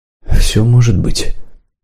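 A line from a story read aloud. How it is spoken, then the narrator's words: Quiet reply. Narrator (Russian): тихо ответил наместник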